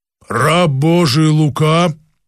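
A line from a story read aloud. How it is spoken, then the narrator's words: Angelic being, deep bass. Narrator (Russian): произнесла ангельская сущность почему-то басом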